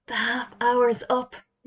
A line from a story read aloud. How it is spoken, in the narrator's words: whispered Jody